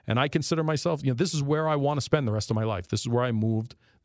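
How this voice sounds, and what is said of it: New York accent. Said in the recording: “a lot of you guys still harass me about my New York accent”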